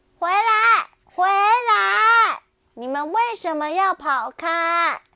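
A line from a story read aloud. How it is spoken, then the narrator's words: Calling out. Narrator (Chinese): 巴蒂叫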